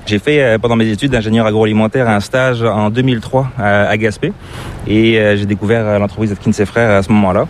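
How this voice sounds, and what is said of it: Slight non-Québécois French accent. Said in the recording (French): “tu as une petite pointe d'accent qui est assez difficile de deviner ... c'est pas l'accent québécois”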